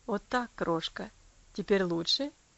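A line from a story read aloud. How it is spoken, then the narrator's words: Gentle tender question. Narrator (Russian): ласково спросил он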